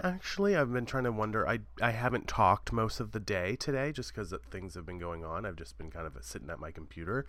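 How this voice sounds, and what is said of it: Voice sounds deeper than usual. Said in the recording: “as you can hear, my voice is a little deep today”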